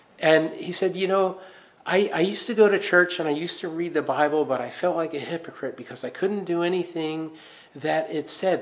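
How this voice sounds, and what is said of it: Non-local accent. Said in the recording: “my accent always gives me away. You're not from around here, are you?”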